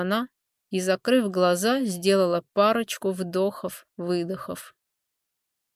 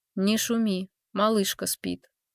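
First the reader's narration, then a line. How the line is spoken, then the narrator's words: Soft whisper, young woman. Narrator (Russian): тихо прошептала девушка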